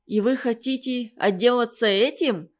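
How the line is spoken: Laughing blacksmiths. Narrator (Russian): смеялись кузнецы

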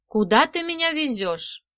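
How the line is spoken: Plain. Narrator (Russian): спросила Майя

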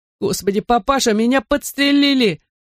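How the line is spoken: Sobbing. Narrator (Russian): Рыдал он

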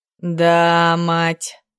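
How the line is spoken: Delighted drawl. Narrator (Russian): протянул Клим, восторженно покрутив головой

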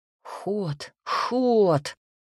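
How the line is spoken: Growling. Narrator (Russian): рычал Макс

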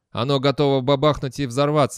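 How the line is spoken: Mocking. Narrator (Russian): насмешливо произнес Терренс

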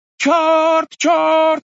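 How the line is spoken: Shouting. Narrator (Russian): кричало вслед за ним

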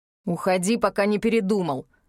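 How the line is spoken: Angry growl. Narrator (Russian): рыкнул зло

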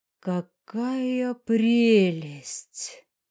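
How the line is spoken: Delighted breathy exclamation. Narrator (Russian): Восхищенно выдохнула она

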